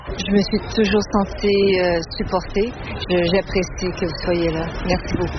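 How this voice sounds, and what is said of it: Quebec French accent. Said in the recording (French): “l'accent est toujours là”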